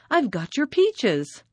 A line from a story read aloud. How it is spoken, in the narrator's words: cried